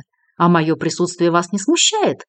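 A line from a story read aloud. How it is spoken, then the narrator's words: Slightly offended tone. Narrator (Russian): немного обиженным тоном спросил Вацлав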